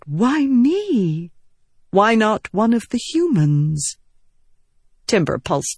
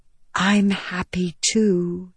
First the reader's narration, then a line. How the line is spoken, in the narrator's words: Venli whispered